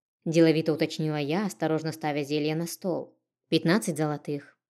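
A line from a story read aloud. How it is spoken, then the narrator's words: Calm reply, young woman. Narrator (Russian): спокойно ответила мне девушка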